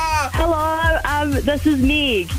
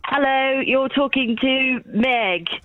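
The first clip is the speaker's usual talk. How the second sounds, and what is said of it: Put-on British accent. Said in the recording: “do I need to do it in a British accent?”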